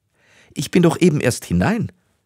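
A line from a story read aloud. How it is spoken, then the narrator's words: Shouting. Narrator (German): rief die junge Frau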